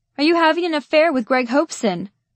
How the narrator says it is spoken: a middle-aged woman with blue-rinsed curls yelled

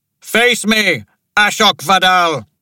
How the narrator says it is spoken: He roared

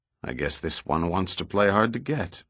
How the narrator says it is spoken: Pitt muttered

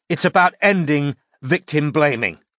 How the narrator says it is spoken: said Kyle loudly

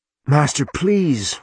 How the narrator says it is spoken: Roger begged

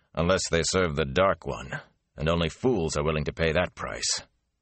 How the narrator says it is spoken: the warder said grimly

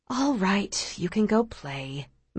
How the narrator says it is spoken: Ma says with a sigh

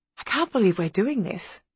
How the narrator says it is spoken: whispered Alice to Maggie

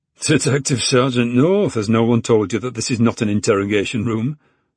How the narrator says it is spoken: Tom chuckled

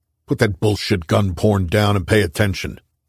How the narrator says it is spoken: Crimmins snapped

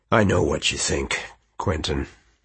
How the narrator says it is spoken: he said gruffly

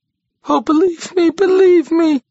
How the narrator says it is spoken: she wailed again

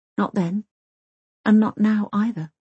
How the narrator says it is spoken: she whispers

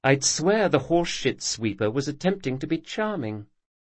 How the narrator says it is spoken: she said softly

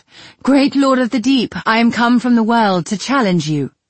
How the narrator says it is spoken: I cried out

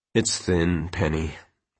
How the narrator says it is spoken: Quentin said finally, weakly

